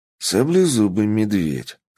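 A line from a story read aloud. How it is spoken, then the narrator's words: Calm. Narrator (Russian): спокойно сказал я Рагни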